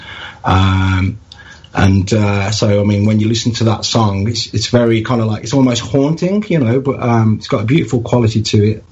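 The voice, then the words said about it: Charming non-American accent. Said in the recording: “your accent is just so charming”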